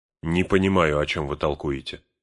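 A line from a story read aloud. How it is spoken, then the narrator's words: Irritated reply. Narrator (Russian): раздраженно отозвался Фродо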